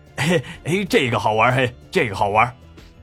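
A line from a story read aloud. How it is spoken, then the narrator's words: Burly man, grinning. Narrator (Chinese): 纹身大汉笑眯眯地说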